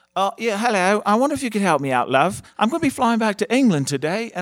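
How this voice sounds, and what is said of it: Put-on British accent. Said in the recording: “Can I do my British accent?”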